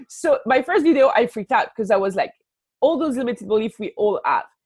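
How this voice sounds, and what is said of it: French accent. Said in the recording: “my French accent”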